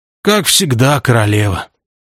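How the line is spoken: Warrior's sigh. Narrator (Russian): вздохнул воин

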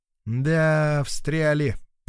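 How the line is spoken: Drawling. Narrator (Russian): протянул Тоха

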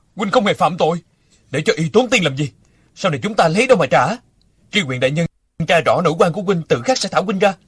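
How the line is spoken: Loud and increasingly angry. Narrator (Vietnamese): Địch Dân càng tức giận lớn tiếng

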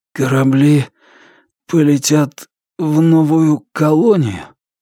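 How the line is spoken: Strained, forced out. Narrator (Russian): Он смог выдавить

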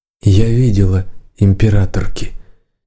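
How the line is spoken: Quiet. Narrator (Russian): тихо сказала черноволосая

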